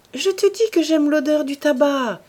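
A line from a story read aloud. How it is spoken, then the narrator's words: Exclaimed. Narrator (French): s'écria-t-elle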